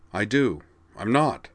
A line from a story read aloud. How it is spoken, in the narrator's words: said Corwin flatly